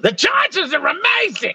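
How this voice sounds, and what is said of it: Tommy Heinsohn impression. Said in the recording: “my Tommy Heinsohn impression.”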